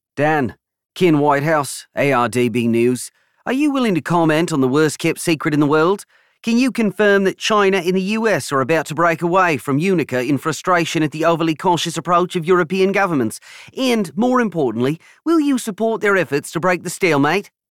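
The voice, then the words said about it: Loud voice, strong Australian accent. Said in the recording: “one particularly loud reporter ... a strong Australian accent”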